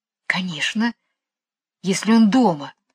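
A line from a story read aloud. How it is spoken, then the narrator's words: Whispered. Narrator (Russian): шепнула Джейн Майклу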